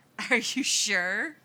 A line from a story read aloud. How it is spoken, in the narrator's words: The boy bares his teeth in a growl